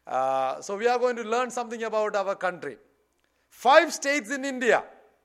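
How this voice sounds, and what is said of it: Indian English accent. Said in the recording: “we live in northern part of India ... bear with my accent”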